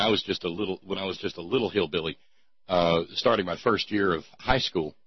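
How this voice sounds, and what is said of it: Usual voice. Nothing is said of it.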